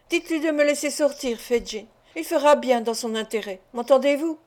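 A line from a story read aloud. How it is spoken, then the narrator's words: Exclaimed. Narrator (French): s'écria Nancy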